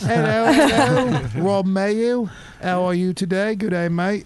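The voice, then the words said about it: Put-on British accent. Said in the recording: “That was my British accent.”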